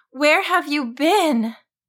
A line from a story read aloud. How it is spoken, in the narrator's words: Laurel exclaimed